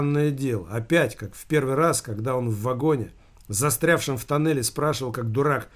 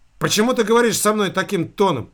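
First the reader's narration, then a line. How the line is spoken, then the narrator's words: Sternly shouted. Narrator (Russian): выкрикнул он, как ему показалось, строго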